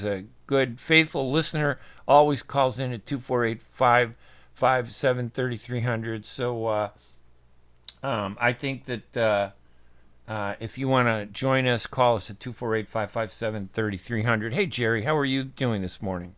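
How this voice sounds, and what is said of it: Arab Southside Chicago accent. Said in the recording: “good to hear your unique voice. Unique voice. ... It's Arab Southside Chicago accent.”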